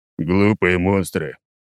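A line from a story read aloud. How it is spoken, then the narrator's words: Grumbling. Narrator (Russian): проворчал я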